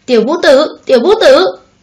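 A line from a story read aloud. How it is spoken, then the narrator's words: Furious cold shouting. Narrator (Vietnamese): Hoàng thượng nổi trận lôi đình, lạnh lùng quát tháo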